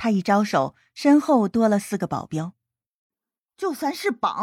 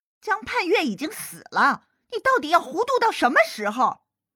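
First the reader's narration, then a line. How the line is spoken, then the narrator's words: Roaring angrily. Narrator (Chinese): 魏母咆哮着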